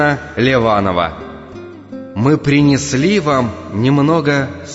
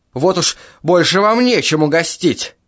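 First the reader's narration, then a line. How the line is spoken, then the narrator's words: Snapping retort. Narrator (Russian): огрызнулась госпожа Курина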